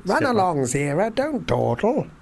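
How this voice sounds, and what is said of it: Imitates another person's voice. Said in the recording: “my Roddy McDowell impression.”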